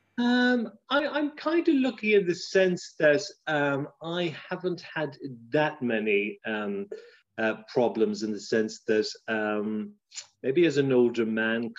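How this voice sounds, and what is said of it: Irish accent. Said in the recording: “I kind of still speak with an Irish accent”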